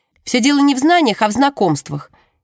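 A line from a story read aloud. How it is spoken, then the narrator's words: Abrupt declaration. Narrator (Russian): ни с того ни с сего заявляет Джемма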